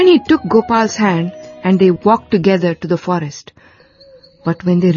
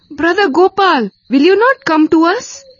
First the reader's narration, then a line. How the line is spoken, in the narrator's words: called out Gopal many times